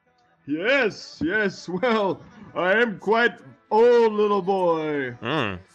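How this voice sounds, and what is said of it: Ghostly old man character voice. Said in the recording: “You sound like a ghost.”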